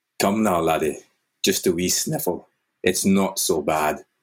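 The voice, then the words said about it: Attempted Scottish accent. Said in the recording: “I hate this Scottish accent. I think we all know that I can't do one ... I need to channel Russian, though ... That's pretty good.”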